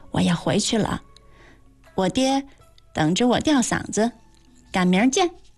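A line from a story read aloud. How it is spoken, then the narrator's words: Whispered. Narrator (Chinese): 小声地说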